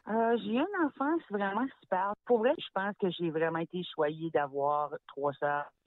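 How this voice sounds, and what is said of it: Acadian French accent from New Brunswick. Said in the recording (French): “Tu es née à Grand-Sault, au Nouveau-Brunswick, d'où ton charmant accent”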